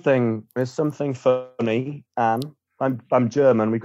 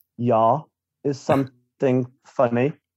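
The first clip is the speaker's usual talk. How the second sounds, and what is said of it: Put-on German accent. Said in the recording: “I would like the accent, please... Your accent is a little bit, yeah.”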